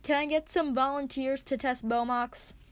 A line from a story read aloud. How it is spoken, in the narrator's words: bellows